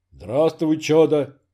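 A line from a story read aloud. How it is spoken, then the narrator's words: Monk's deep bass. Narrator (Russian): густым басом ответил монах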